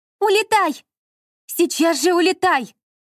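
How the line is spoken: Shouting, mother and sister. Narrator (Russian): кричали мать и сестра

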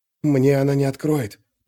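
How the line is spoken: Silent whisper. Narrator (Russian): прошептал он одними губами

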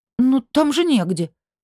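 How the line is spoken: Horrified exclamation. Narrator (Russian): в ужасе воскликнула

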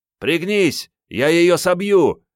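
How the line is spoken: Yelling. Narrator (Russian): заорал Генка

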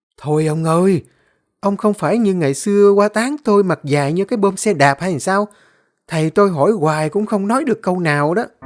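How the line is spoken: Smiling, teasing. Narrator (Vietnamese): Bà vợ ông Đặng mỉm cười

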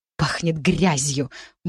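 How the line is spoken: Grumble. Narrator (Russian): буркнула Анжи за спиной

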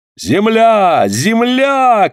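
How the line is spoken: Shouted. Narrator (Russian): крикнул Паганель

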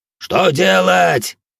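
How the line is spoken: Crowd yelling. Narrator (Russian): орали другие

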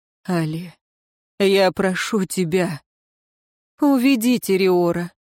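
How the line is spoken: Tired. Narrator (Russian): устало произнесла она

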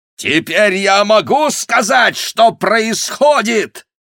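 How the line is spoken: Furious shouting. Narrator (Russian): в бешенстве прокричал он

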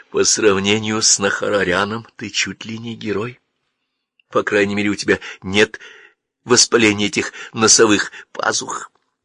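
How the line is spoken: Whisper. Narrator (Russian): прошептала

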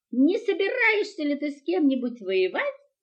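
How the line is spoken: Cheerful grunting. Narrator (Russian): весело прохрюкал Ниф-Ниф

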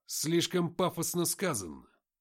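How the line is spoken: Cheerful exclamation. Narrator (Russian): весело воскликнул Артем

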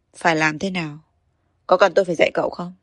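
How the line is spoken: Cold. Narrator (Vietnamese): Hạ Thành lạnh lùng nói

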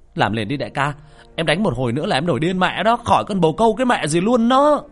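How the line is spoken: Yelling. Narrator (Vietnamese): Thạch Sinh liền la lên

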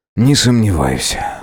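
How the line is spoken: Muttered. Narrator (Russian): буркнул я

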